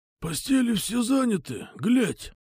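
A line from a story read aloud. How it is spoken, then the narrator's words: Hoarse, muffled voice. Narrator (Russian): просипел глухой голос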